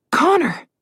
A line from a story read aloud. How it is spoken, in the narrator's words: Alex gasped